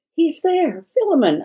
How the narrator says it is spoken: I exclaimed

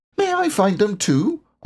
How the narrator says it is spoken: asked Roo eagerly

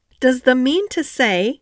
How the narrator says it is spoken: cried Martha

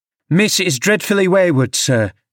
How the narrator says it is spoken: I called out

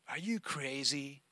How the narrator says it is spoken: sneered the other

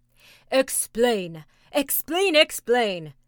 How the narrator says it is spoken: cried all the tribe of Tegumai

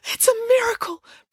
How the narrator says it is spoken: breathed Matilda

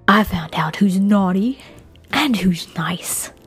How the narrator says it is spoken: he whispered viciously into the camera mic

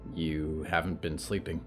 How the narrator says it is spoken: Olivier observed quietly

